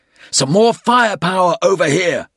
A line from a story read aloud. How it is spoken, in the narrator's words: called out